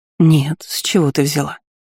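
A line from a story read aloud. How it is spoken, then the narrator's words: Calm answer. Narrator (Russian): Спокойно ответила знахарка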